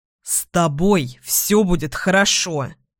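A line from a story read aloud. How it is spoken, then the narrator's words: Growled. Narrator (Russian): рыкнул Эдвин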